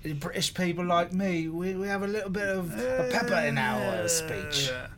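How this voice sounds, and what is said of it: Gravelly faux English accent. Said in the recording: “your faux English accent is both funny and accurate ... You're making it all gravelly now. It's very odd.”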